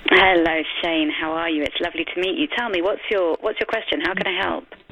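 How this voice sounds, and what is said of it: A noticeable, pleasant accent. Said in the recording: “Beautiful accent.”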